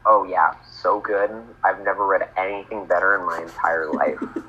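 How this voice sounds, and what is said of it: Sarcastic deadpan voice. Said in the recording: “That was sarcasm. I was being sarcastic... your perfect terrible. Deadpan voice.”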